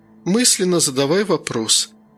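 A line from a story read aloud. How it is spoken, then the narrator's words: Tired. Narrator (Russian): устало проговорила Лёка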